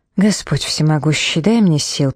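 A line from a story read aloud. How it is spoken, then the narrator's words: Hissed. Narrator (Russian): прошипела Филли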